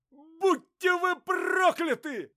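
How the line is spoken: Shout. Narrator (Russian): закричал Лыков

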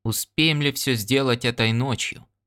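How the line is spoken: Calm question. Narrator (Russian): спокойно спросил Ян Дорак

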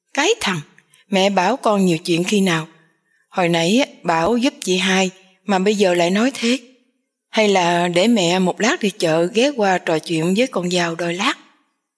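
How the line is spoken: Smiling woman. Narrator (Vietnamese): Bà Thục mỉm cười

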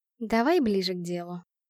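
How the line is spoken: Affectionate. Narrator (Russian): сказала ласково

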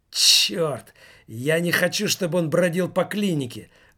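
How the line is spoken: Exclaiming. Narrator (Russian): воскликнул Кагарманов

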